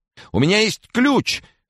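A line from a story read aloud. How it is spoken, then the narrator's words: Frantic scream. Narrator (Russian): истошным голосом крикнул консьерж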